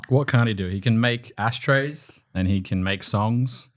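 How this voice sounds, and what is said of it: Put-on unusual speaking voice. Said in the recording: “Is that your real voice? ... This is my podcast voice ... I've never heard you sound like this.”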